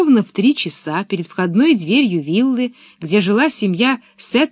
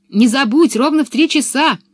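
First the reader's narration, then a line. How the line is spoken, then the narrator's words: Shout from afar. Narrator (Russian): уже издали крикнула Анника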